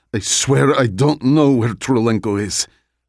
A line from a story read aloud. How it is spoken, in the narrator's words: The guy gasped and said